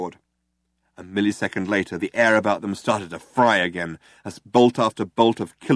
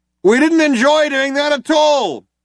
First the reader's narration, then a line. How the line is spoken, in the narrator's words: shouted the other cop